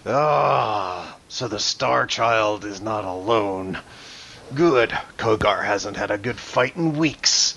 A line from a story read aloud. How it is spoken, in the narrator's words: He sort of growls and then grins, and he says